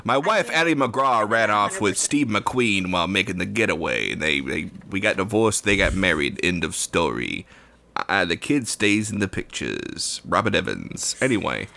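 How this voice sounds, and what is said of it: Imitates another person's voice. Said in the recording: “it's borderline Cary Grant. This Robert Evans impression? ... it is a good impression. ... I can tell it's good.”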